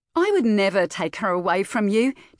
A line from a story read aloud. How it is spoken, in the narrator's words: Tash exclaimed in Sadie's ear